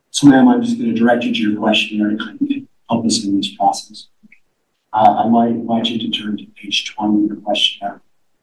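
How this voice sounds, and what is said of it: Hoarse, strained voice. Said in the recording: “I've lost my voice.”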